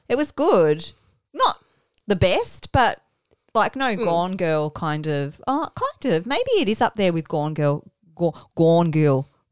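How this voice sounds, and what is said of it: Strong Australian accent. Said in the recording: “Your accent just went ... full ... Oz there.”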